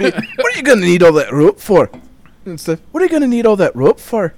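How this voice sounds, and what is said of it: Put-on Irish accent. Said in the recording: “That was an Irish accent, not Scottish.”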